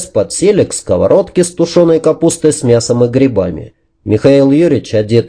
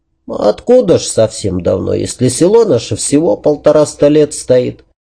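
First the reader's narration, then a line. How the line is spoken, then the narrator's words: Calm old woman. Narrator (Russian): спокойно ответила старушка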